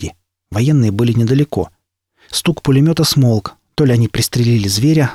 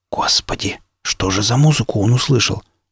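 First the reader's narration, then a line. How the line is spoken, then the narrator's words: Whisper. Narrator (Russian): прошептал Илья Львович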